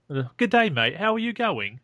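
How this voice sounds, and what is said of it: Bad Australian accent drifting Cockney. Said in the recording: “Usually when they do that as a bad Australian imitation, it ends up Cockney ... I can do an Aussie accent ... And just kind of goes really Cockney”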